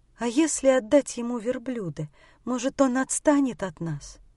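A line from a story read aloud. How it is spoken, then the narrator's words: Timid question. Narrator (Russian): спросила жена и робко предложила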